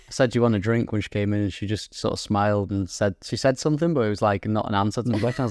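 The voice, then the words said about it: Northern English accent. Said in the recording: “It's just a northern accent people struggle with.”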